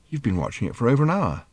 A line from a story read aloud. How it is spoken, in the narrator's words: said Arthur quietly